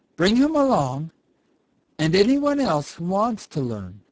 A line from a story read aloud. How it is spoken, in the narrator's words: replied Old Mother Nature kindly